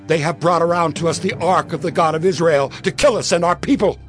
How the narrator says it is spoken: the people of Ekron cried out

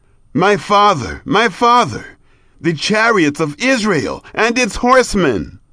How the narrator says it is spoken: he cried

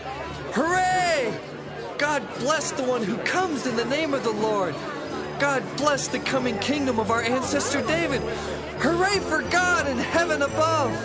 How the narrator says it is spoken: people went along shouting

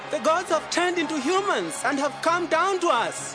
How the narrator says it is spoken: they yelled out in the language of Lycaonia

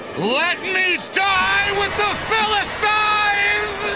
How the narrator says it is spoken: Then he shouted

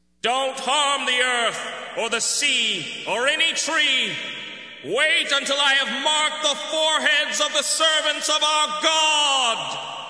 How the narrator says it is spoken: He shouted to the four angels

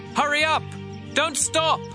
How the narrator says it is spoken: Jonathan shouted to him again

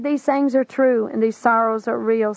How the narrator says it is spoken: said Jesus

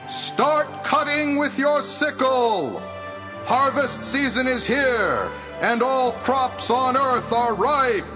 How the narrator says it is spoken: An angel shouted

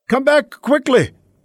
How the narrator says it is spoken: Jonathan cried out

